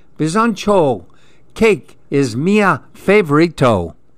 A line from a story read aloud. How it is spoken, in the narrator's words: Andy yelled